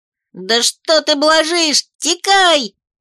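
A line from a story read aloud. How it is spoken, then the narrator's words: Hamster yelling in chorus. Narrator (Russian): заорал хомяк, присоединяясь к нашему хоровому концерту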